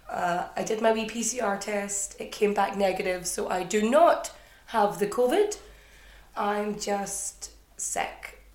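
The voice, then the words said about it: Hoarse, sniffly, congested voice. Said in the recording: “your sniffling host ... If I sound a little bit different, it's not only hoarse, but I seem to have caught the common cold”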